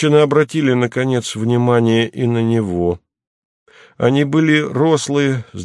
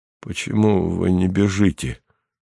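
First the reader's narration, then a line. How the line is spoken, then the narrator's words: Dejected question. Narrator (Russian): упавшим голосом спросил Атос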